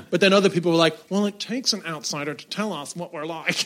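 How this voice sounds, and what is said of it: American accent. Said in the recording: “an Irish guy with an American accent”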